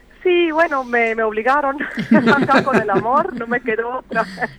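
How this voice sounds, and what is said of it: Strong Swiss German accent in Spanish. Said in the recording (Spanish): “mi acento es fuerte. Cuando yo me escucho hablar, siento fuerte el acento del suizo alemán.”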